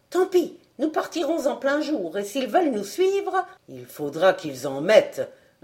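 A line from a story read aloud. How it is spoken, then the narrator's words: Snickering. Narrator (French): ricana Fred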